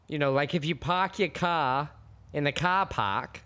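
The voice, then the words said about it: Attempted put-on Boston accent. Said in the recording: “I can't do it, but I'm going to try. My number two is going to be the Boston accent. ... You had it at first. You had me in the first half.”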